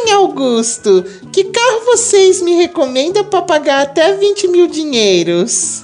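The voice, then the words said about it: Put-on mother-in-law character voice. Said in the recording (Portuguese): “tem que ser com voz de sogra. Você faz a voz da sogra”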